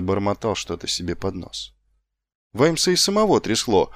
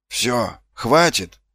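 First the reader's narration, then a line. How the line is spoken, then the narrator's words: Exclamation. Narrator (Russian): воскликнул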